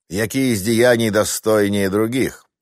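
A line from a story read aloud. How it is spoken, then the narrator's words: Thunderous voice. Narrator (Russian): Громовым голосом вопросил пришедший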